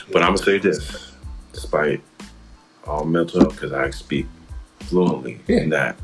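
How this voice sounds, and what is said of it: Deliberately deep low voice. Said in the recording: “I'm in my deep voice now. ... I'm back in my deep voice.”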